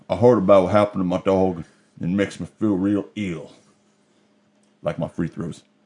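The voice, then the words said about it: Rough Charles Barkley impression. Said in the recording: “Charles Barkley came up ... I don't do a good impersonation here ... I just want to capture the character the best I can”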